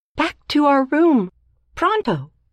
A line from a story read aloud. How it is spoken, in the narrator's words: cried